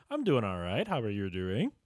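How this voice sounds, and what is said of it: Cartoon character voice. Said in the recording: “I have a cartoon voice.”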